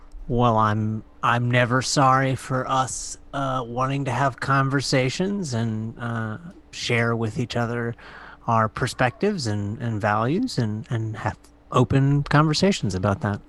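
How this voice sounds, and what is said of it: Slight New Jersey-like throaty accent. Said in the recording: “Are you doing an accent ... there's almost like a New Jersey thing happening in the back of your throat”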